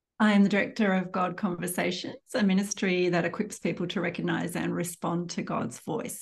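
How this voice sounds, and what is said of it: Australian accent. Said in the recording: “she is coming to us from Australia ... I'm just going to have you talk a whole lot so I can enjoy your accent.”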